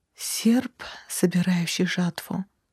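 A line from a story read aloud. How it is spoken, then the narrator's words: Whisper. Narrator (Russian): прошептала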